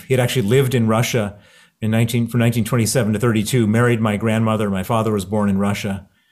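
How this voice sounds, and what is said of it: American accent. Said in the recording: “you can hear my accent. It's American. I grew up in Chicago”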